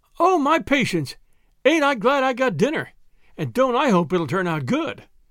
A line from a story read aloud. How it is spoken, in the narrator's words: exclaimed Tilly